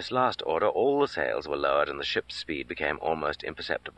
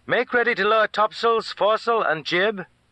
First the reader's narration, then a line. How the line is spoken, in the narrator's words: the young sailor called out